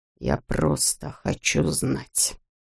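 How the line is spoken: Quiet. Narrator (Russian): тихо проговорил он

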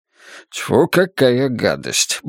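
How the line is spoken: Muttering. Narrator (Russian): бормочет падло

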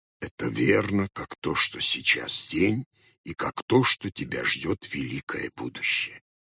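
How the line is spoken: Barely audible reply. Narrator (Russian): еле слышно отвечал Хоттабыч

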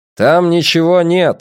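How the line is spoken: Loud. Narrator (Russian): сказал громко Драккайнен

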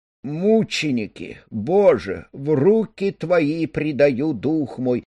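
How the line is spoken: Moaning. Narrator (Russian): простонала леди Хинтон

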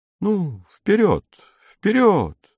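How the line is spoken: Gentle, affectionate. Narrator (Russian): ласково сказал барон Като

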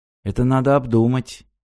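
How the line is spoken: Gloomy. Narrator (Russian): мрачно сказала Ирина

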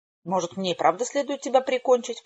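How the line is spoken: Growl. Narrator (Russian): прорычала Хэвишем

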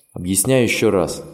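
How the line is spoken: Plain. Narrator (Russian): сказал Дуг

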